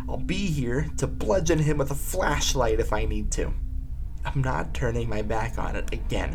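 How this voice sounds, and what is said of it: Worn-out, tired, strained voice. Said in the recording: “I'm tired. I'm really sleepy, my voice is shot”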